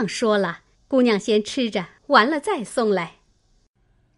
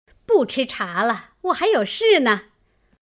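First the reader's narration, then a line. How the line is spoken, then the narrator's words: Old woman laughing. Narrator (Chinese): 婆子笑道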